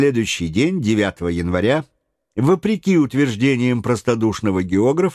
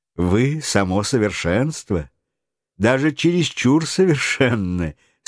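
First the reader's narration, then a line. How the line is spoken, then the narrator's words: Laughing. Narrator (Russian): смеясь добавила Эллен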